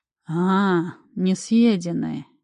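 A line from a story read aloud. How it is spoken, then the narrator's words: Sly drawl. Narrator (Russian): хитро протянул мужчина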